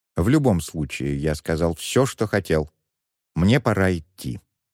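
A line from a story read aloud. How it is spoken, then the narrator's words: Calm tone. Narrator (Russian): спокойным тоном произнес Муан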